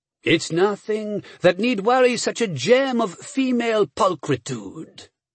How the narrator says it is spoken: he said smoothly

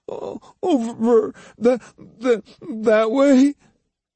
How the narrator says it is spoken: Between sobs, Iori stammered

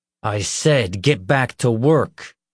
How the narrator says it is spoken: Leroy growled

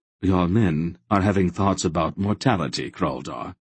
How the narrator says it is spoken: Silk said dryly

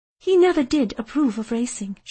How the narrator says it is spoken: she sighed

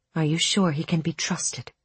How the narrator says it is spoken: Ula asked, so gently, so carefully, as if she were trying to hold broken glass

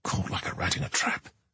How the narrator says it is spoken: he muttered

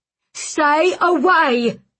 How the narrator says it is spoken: the man cried again

